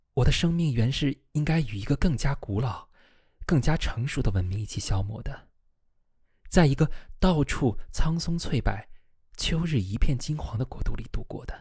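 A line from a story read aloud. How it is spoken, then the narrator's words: Sighing. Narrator (Chinese): 他叹了一口气，说道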